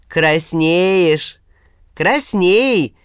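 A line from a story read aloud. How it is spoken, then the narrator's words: Approving boom. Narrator (Russian): одобрительно прогудел Василий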